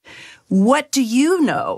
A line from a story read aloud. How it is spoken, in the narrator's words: he sneered